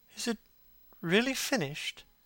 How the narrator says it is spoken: he murmured

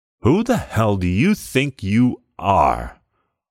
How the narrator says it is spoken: Jubal roared

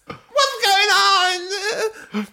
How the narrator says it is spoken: Bella cried

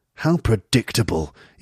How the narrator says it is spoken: you say coldly

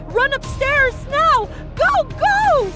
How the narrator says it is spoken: shouted

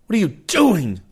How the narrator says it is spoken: I screamed

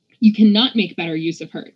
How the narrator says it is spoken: Nico said sharply

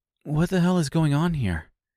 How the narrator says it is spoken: she asked

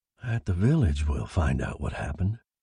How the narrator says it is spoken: he mumbled

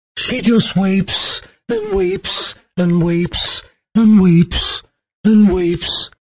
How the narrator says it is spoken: moaned Anne the nurse

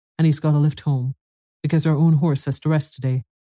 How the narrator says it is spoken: she said hastily

